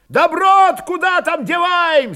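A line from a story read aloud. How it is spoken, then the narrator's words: Loud question. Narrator (Russian): спросили громко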